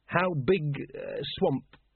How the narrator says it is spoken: he faltered

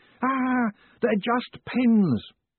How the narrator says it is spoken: shouting

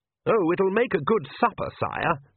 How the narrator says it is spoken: said Oates, in the madly cheerful voice that people use when addressing royalty

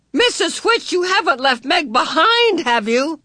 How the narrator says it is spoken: Charles Wallace shouted

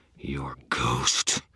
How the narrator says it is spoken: hissed

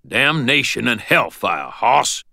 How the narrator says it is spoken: growled Ebenezer's voice

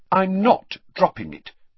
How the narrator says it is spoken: said Hermione firmly

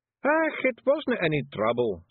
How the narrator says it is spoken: said Rob Anybody cheerfully

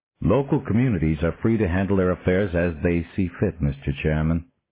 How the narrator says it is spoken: the man replied

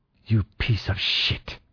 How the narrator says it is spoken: she hissed at me

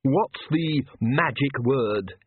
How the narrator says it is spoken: he snarled

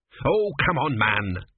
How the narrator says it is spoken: snapped Tepikaimon

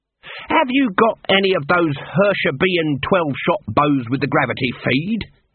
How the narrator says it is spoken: snapped

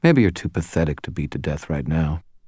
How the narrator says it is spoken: Murphy said more quietly

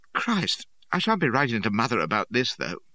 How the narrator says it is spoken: He shuddered, and I heard him mutter to Hennage

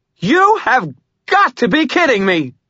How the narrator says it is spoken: Murphy screamed

